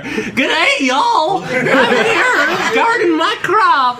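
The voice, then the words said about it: Put-on Southern American accent. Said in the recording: “You do like a good sort of Severn accent.”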